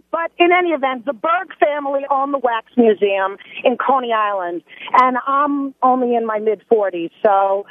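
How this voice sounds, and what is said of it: Strong Brooklyn accent. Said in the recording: “I grew up in Brooklyn. Obviously, my accent, I'm there ... In your case, the word accent should be spelled with A-X-E ... the word accent takes on a new meaning with you. You're worse than me”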